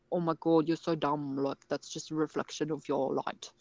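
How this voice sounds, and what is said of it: Put-on accent, mocking tone. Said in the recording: “Sorry for the bad accent ... I thought it was excellent, actually.”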